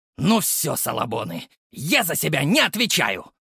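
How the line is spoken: Growled. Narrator (Russian): прорычал огонек

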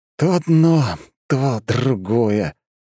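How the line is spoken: Sighing. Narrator (Russian): вздохнул я

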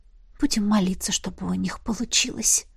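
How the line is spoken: Whisper. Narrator (Russian): прошептала я

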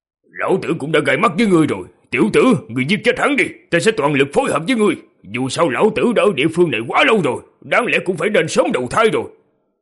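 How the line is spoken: Burly man shouting. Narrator (Vietnamese): một tráng hán quát

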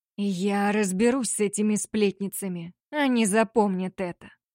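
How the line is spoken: Quiet dangerous voice. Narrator (Russian): пообещал он тихим, опасным голосом

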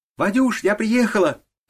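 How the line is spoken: Joyful shout. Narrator (Russian): радостно крикнула она

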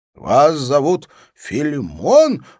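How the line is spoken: Exclamation. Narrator (Russian): воскликнул генерал

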